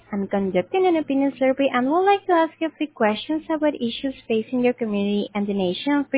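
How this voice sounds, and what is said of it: Noticeable foreign accent. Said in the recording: “slightly less accent”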